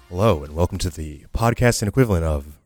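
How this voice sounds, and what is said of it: Deep announcer-style radio voice. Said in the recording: “Radio Voice. This is my radio voice.”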